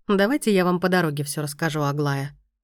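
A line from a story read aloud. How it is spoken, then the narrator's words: Even tone. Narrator (Russian): ровным тоном предложил он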